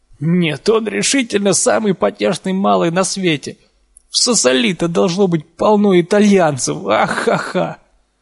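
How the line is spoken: Laughing heartily. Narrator (Russian): Чтобы всласть насмеяться

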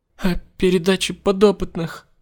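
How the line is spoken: Sobbing. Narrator (Russian): всхлипнула Барбайл

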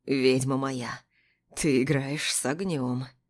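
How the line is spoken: Hoarse whisper. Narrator (Russian): хрипло шепчет Павел

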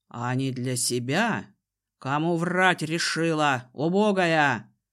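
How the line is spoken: Growl. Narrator (Russian): рыкнул Дезмонд

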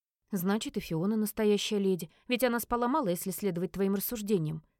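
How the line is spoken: Plain. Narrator (Russian): сказала я

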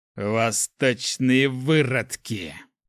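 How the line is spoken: Hissed. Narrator (Russian): прошипел старший инквизитор

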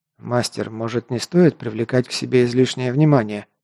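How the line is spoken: Quiet. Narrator (Russian): негромко проговорил Гар

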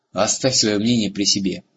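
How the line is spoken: Barking. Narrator (Russian): рявкнул Бром

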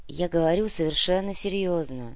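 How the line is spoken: Weary. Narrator (Russian): устало произнесла Анна

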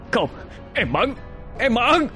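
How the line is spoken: Anguished wailing. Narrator (Vietnamese): Gã Thanh ngã quỵ, tay ôm ngực, gào lên

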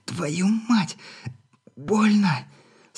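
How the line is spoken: Hoarse groaning wheeze. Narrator (Russian): Со стоном просипела она

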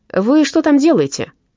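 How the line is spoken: Shouted. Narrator (Russian): крикнул Гуннастран

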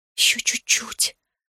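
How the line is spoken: Whisper. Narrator (Russian): прошептала я

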